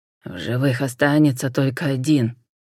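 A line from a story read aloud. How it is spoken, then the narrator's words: Through gritted teeth. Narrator (Russian): процедил Рафаэль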